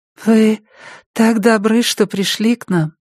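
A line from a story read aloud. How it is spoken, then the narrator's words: Sweet, guilty voice. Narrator (Russian): ангельским голосом виновато произнесла миссис Холт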